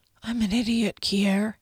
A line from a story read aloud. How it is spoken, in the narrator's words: he whispered